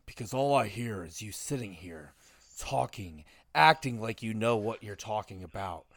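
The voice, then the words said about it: Imitates a wrestler's promo voice. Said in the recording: “if I'm going to do this, let me do it in my Orton voice ... if I'm going to cut a promo back, I'm going to do it in my Orton voice”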